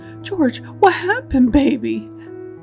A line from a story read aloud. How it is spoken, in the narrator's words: Sharon screamed